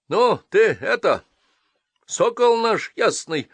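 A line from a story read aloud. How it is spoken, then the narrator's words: Old woman shouting after. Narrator (Russian): опомнившись, прокричала нам вслед баба Яга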